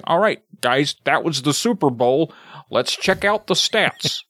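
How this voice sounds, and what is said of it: Staccato impression of a sportscaster. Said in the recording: “Like, very staccato... That's a great impression. That's pretty good.”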